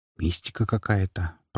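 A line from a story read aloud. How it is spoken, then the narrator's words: Muttered. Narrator (Russian): пробормотала Дриада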